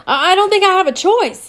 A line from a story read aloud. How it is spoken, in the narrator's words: Diego yelled back